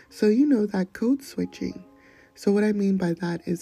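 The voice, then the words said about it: Soft, slow, sweet gentle voice. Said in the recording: “speak so gently? ... I put a little extra honey in it ... I don't usually operate on this level of timbre and slowness ... a softer, sweeter side”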